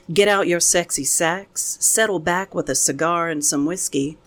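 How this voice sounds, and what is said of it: Speaks with a distinct accent. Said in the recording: “that was way better in your accent than it would have been in my accent”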